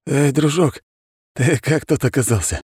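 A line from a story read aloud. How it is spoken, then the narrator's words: Hoarse croak. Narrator (Russian): прохрипел Котельников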